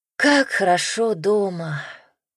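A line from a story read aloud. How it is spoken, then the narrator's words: Sighing. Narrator (Russian): вздохнула Иванна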